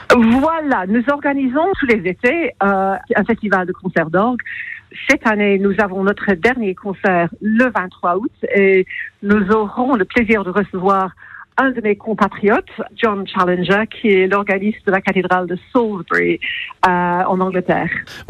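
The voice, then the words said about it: English accent speaking French. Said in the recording (French): “votre joli petit accent anglais”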